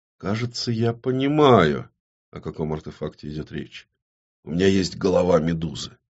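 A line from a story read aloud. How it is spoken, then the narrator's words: Quiet. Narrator (Russian): Юлия негромко произнесла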